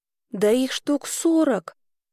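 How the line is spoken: Quiet girl's remark. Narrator (Russian): тихо заметила девочка

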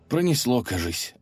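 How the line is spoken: Relieved sigh. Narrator (Russian): облегченно вздохнул Алеша

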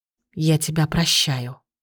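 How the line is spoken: Barely audible whisper. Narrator (Russian): прошептала она едва слышно

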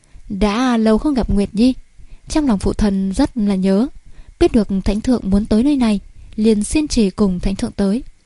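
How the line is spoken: Very gentle, smiling. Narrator (Vietnamese): Thượng Quan Ngưng Nguyệt hiện ý cười, giọng điệu mười phần dịu dàng

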